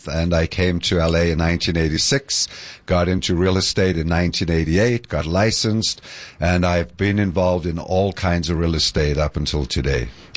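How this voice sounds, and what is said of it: New Jersey accent. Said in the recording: “that New Jersey accent”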